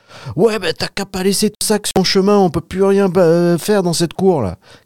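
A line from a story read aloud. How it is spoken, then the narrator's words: Angry shout. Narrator (French): cria Jean, très énervé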